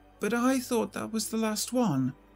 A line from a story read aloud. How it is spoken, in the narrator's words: the Stepford wife responded, her voice shaky and uneasy